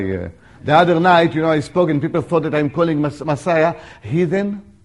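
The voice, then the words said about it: Non-native accented English. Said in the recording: “if you think you have a problem with my accent, it means you need to improve yours ... Your English is better than my Hebrew”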